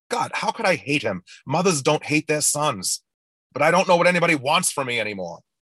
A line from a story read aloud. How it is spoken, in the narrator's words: she gasps